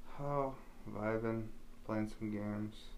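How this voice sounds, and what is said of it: Sad, quiet, low-energy voice. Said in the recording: “do you sound so sad? ... You're barely picking up on the sound.”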